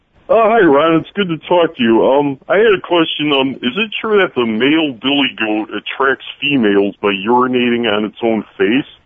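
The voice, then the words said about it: Imitates another person's voice. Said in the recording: “That's an amazing impersonation.”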